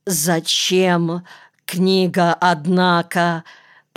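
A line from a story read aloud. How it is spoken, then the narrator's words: Rasping. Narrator (Russian): прохрипел, наконец, Монакин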